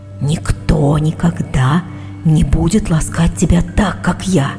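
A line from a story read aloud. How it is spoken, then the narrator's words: Ominous whisper. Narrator (Russian): он зловеще шептал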